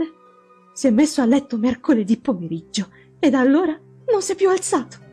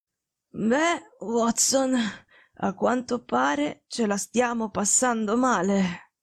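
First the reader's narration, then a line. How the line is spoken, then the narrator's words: Faint, slightly nonchalant. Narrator (Italian): disse con voce fievole, ma con un accenno della sua solita noncuranza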